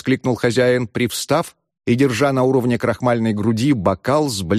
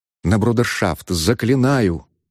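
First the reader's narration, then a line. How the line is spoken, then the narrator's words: Changed, quiet, pleading voice. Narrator (Russian): изменившимся голосом, тихо, с лицом, искаженным мольбой, обратился мсье Пьер к Цинцинату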